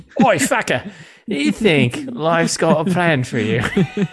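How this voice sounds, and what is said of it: Put-on accent drifting Australian. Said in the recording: “Was that the accent we were doing? ... Well, almost. I think you're getting a little Australian at the end”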